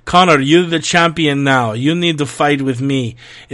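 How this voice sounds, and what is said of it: Broken Russian accent imitating Khabib. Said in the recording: “Khabib apparently sent Connor a DM today, which I'll read with a broken Russian accent”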